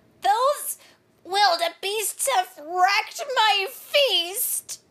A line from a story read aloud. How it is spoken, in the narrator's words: cried Rhino